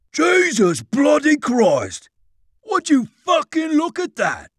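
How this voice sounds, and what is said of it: Put-on cockney accent. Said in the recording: “In a cockney voice”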